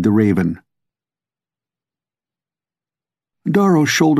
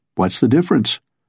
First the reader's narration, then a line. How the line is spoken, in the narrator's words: asked Darrow